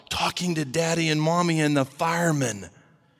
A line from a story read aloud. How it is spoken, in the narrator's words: came the whispered answer